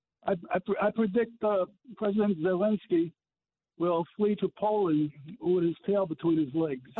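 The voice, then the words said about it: New Jersey accent. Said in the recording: “I'm hearing a great New Jersey accent”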